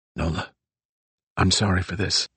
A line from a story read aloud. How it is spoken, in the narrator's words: whispered